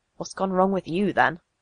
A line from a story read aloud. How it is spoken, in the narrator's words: He murmured